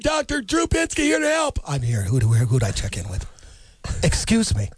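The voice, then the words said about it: Imitates another person's voice. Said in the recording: “Let's do a quick impression”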